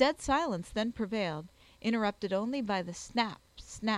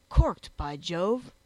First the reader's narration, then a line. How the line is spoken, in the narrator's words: exclaimed he